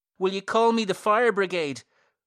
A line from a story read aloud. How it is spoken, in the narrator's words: pleads Mr